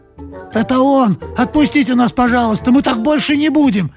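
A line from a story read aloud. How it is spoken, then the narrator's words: Frightened squeaking chorus. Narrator (Russian): В разнобой запищали испуганные мыши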